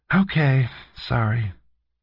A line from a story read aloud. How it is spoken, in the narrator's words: she said with a sigh